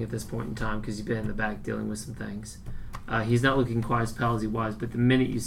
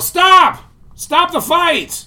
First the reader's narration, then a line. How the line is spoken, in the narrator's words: try to yell over the people